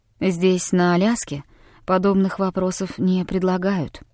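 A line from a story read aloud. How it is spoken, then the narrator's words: Quiet. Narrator (Russian): тихо произнес Дэвид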